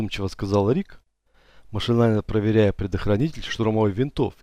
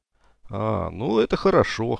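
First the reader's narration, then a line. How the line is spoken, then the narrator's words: Grunt. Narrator (Russian): хмыкнул Ахмед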